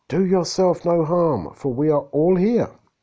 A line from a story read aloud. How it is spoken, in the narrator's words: Paul cried with a loud voice, saying